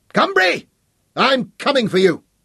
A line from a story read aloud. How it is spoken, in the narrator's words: shouted at him